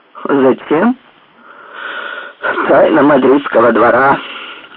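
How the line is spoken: Sarcastic exclamation. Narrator (Russian): воскликнул Истман язвительно

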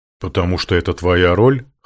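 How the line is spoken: Wry snort, demon. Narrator (Russian): хмыкнул демон

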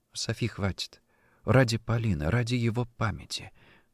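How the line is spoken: Tearful whisper. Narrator (Russian): прошептала она, с трудом сдерживая собственные слезы

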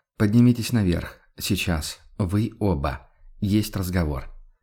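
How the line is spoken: Quiet command. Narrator (Russian): негромко распорядился

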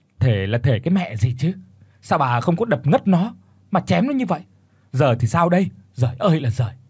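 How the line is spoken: Furious shout. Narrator (Vietnamese): cơn giận dữ bùng lên mà quát

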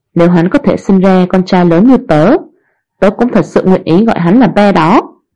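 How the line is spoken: Laughing. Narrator (Vietnamese): bật cười nói

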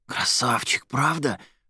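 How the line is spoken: Joyful whisper. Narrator (Russian): шепотом радовалась Кристина

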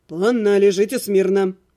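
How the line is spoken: Displeased grumble. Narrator (Russian): недовольно буркнул целитель

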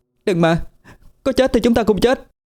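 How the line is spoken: Sudden desperate shout. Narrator (Vietnamese): tôi đột nhiên hét lên

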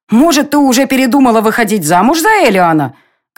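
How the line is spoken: Shouting. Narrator (Russian): кричала Ирио

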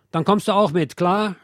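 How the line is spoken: Policeman snapping. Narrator (German): schnauzt der Polizist zu Paule

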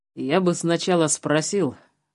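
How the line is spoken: Smirking grunt. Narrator (Russian): хмыкнул Жеглов

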